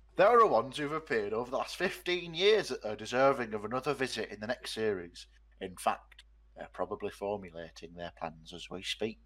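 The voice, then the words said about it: Put-on northern English accent. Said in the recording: “I'm going to give him a northern accent.”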